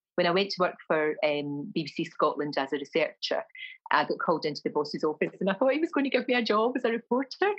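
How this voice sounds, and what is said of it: Glasgow Scottish accent. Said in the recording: “my accent was terrible. My accent was offensive, my Glasgow accent. ... nobody spoke like me”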